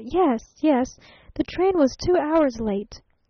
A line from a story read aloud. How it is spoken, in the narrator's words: she stammered